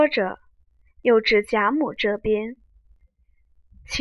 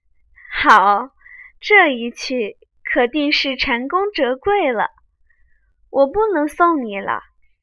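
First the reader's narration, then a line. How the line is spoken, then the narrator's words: Sinister laugh. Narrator (Chinese): 阴笑道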